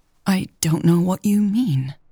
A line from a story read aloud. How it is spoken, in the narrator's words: stammered